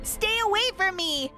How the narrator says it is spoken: I screamed at the top of my lungs

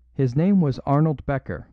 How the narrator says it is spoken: said the under-detective

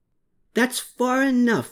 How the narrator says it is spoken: he called out while both gasping for breath

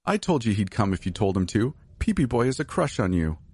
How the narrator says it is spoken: laughed

